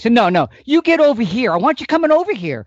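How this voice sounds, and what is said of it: Raised, insistent voice. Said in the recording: “I'm raising my voice”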